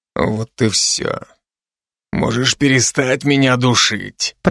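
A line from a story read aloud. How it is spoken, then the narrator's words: Hoarse wheeze. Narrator (Russian): прохрипел он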